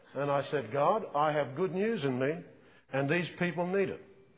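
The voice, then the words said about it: Australian accent. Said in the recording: “what's your accent? I said, Australian.”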